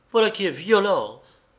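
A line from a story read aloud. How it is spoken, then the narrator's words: Angry exclamation. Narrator (French): s'exclama Madame Renaud, rouge de colère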